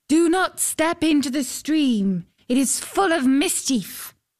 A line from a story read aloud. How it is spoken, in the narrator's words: a voice called out